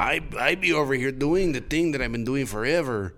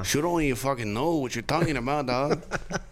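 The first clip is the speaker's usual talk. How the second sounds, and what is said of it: Put-on Mexican-American accent. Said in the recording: “I can destroy, yeah, like, a Mexican-American, yeah, accent.”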